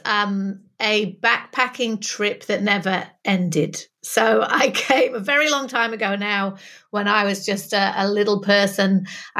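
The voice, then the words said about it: Northern English accent. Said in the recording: “I'm originally from Manchester, which is why you can tell that northern vowels of my accent”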